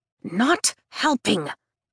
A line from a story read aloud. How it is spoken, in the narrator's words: Rhiannon hisses